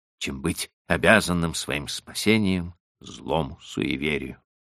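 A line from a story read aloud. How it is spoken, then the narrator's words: Muttered. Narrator (Russian): пробормотал я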